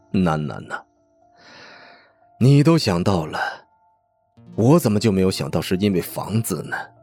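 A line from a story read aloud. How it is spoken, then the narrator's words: Hoarse, bitter laughter. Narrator (Chinese): 爸爸的笑声嘶哑而悲愤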